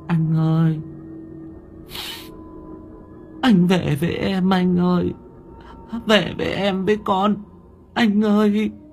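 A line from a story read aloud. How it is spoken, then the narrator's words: Tearful whimpering. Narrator (Vietnamese): Cô Hòa mếu máo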